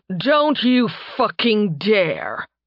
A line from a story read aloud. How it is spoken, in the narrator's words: Tarbin growled